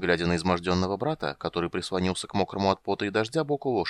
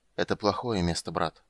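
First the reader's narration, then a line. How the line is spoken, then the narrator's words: Tired, low voice. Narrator (Russian): вполголоса сказал Рейстлин, устало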